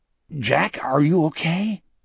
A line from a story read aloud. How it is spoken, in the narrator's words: Wolf asked anxiously